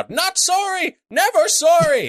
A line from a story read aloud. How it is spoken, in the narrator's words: Salt just screams out